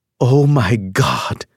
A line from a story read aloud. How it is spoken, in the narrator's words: my Aunt Hattie gasped